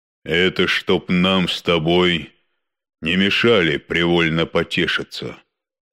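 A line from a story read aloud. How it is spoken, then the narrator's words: Calm explanation. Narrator (Russian): спокойно объяснил бык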